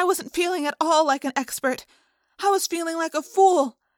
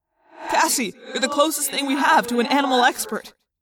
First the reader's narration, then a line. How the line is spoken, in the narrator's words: Jake said urgently